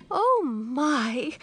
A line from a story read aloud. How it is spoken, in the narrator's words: exclaimed my aunt in surprise